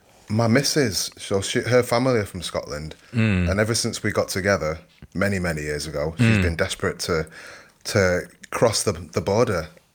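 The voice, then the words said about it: Non-Scottish English accent. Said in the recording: “I can hear from your accent, you're not a Stirling native”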